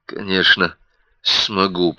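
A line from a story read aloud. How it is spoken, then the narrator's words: Muttering. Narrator (Russian): пробормотал Ник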